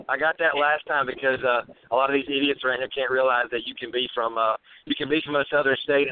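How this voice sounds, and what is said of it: Southern US country accent. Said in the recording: “You sure do have a country accent”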